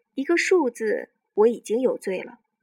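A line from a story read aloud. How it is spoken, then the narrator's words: Faint smile. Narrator (Chinese): 丁元英淡淡一笑着说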